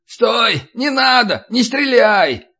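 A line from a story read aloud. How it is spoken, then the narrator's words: Distant shout. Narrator (Russian): заорал от ворот Верзила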